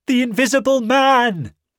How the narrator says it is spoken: he shouted

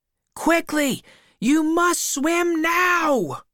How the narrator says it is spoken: shouted again

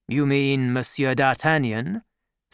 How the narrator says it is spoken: said the cardinal

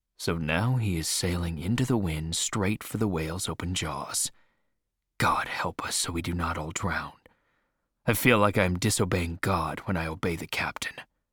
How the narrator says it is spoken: Starbuck say quietly to himself

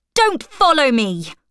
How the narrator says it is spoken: shout

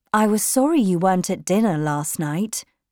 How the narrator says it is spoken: said

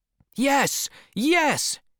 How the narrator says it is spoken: shouted the crew

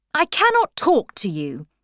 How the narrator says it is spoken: Lord Merlin said angrily

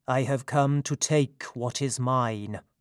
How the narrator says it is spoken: he said in a cold and stony voice

